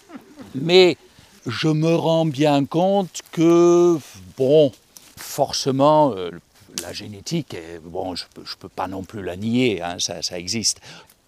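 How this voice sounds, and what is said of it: German accent speaking French. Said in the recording (French): “moi je suis allemand, d'où mon accent”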